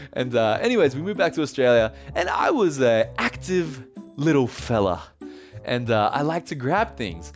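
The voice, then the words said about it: Australian accent. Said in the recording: “moved back to Australia, as you can tell from the accent”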